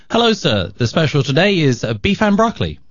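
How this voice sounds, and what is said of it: Put-on British accent. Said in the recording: “a British accent ... a guy with a British accent ... Nah, it doesn't work. I like that other accent better.”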